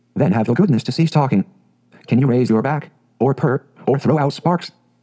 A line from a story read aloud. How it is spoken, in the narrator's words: said the cat